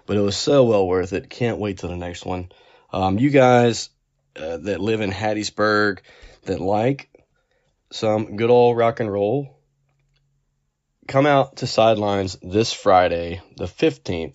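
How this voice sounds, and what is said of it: Worn, tired-sounding voice. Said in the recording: “I was tailgating for quite a while. You might can hear that in my voice right now as well.”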